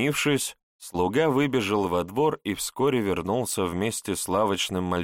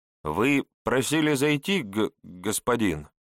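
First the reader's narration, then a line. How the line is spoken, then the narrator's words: Slight stutter. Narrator (Russian): Чуть заикаясь, сообщил тот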